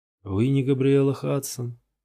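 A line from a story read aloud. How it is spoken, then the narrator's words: Tired. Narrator (Russian): устало спросил почтальон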